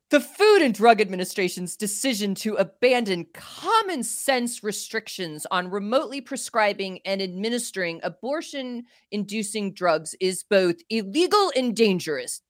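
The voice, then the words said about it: Impression of Steve Marshall. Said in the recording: “my best Steve Marshall impression”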